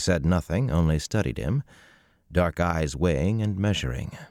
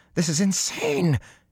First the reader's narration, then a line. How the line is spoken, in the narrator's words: he shrieked